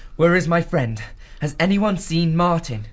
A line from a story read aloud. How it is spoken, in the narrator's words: he asked anxiously